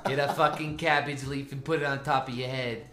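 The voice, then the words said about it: Boston accent impression. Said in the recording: “Is that your Boston impersonation? ... That's Babe Ruth's mom impression.”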